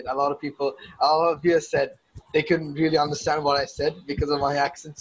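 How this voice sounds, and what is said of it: Speaks with a British-sounding accent. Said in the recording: “my weird wannabe British accent, because it's habitual”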